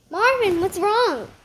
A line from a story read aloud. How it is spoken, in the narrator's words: Nick cried